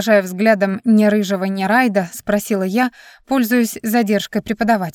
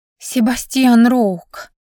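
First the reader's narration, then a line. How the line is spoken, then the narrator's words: Breathy maiden's reply. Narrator (Russian): с придыханием ответила одна из дев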